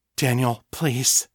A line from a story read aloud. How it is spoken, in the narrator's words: she said, her voice coming out hoarse and choked with emotion